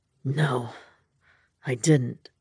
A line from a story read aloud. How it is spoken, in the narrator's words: he rasped